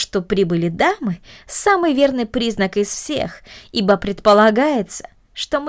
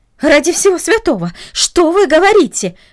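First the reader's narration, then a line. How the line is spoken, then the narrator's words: Exclamation. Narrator (Russian): воскликнула она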